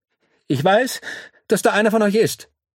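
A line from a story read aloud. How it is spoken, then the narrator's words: Loud. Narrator (German): sagt er laut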